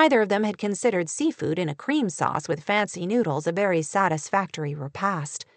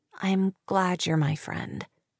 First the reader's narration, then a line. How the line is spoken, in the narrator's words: whispered, feeling a little self-conscious